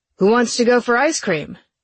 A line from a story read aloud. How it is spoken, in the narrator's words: Luke called out